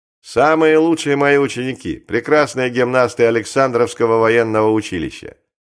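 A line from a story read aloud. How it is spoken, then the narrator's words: Loud. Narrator (Russian): Постников, очевидно, давно знавший вес и силу публичной рекламы, громко сказал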